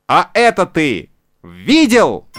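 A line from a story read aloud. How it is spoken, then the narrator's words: Shouted into ear. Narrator (Russian): крикнул ему в ухо Буратино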